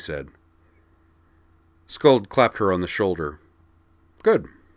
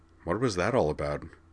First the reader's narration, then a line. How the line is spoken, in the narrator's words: He asked her in a low voice